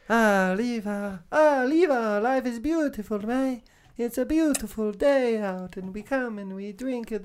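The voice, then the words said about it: Put-on Italian accent. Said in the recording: “do an Italian ... I was trying to think of how to do an Italian earlier”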